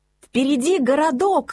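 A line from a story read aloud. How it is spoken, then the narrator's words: Joyful shout. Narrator (Russian): радостно крикнул Мац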